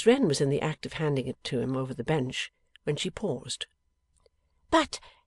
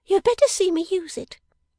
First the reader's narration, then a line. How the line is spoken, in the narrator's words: she said sharply